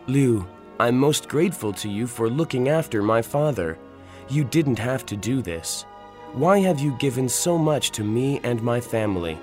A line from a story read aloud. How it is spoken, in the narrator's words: I asked her